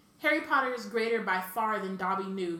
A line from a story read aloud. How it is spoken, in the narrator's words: he sobbed